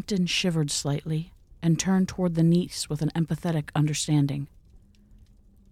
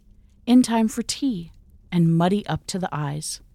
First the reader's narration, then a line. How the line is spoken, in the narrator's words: she cried